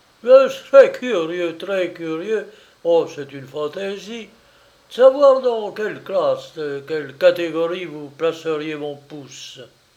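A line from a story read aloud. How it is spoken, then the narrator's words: Laughing exclamation. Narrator (French): riant, le marquis s'écria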